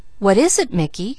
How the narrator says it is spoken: questioned Bruce kindly

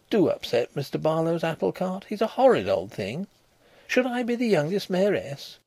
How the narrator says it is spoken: cried

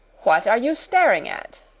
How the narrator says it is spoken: demanded Miss Minchin sharply

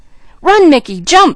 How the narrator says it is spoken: screamed Junior

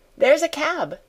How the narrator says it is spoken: exclaimed Janet

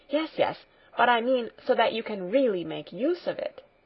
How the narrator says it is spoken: continued Heidi eagerly

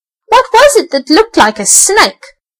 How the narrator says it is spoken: howled Nip

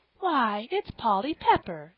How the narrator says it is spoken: exclaimed Mrs

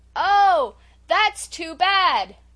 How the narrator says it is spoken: shouted poor Felicity, darting an angry glance

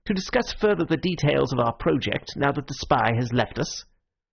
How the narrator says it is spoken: said a little sharply

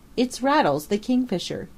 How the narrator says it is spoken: he cried

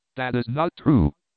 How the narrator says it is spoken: exclaimed Barcus, with alarm

